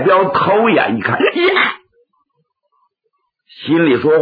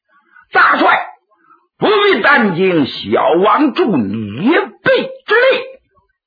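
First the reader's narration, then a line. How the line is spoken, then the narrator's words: Shout. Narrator (Chinese): 燕王还喊了一声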